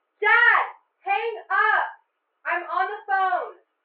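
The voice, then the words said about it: Yelling angrily. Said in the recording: “why are you yelling”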